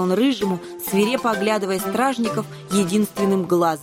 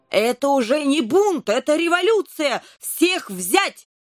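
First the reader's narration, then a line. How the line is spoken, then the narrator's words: King shouting. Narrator (Russian): закричал король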